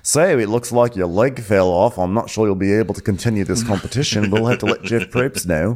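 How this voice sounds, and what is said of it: Put-on Australian accent. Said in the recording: “I started to give Monica an Australian accent because I'm still used to the medics on Survivor who come in.”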